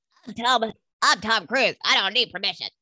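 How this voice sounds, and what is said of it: Imitates another person's voice, upset. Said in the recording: “That's my best Tom Cruise ... my best Tom Cruise impersonation. That's a, that's what he sounds like to me in my head when he's upset.”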